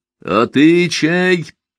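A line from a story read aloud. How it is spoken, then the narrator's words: Sudden shout. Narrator (Russian): внезапно крикнул Елизарий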